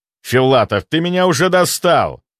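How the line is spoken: Roar. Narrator (Russian): взревел Краснов

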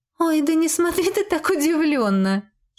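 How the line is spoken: Witch giggling. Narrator (Russian): хихикнула ведьма

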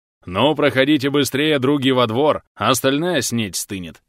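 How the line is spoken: Hearty laughter. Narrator (Russian): Захохотал Вакула

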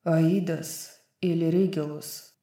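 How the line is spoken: Hoarse rasping. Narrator (Russian): прохрипел Хант

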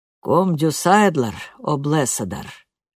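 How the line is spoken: Low chesty voice. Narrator (Russian): сказал Йоун низким грудным голосом

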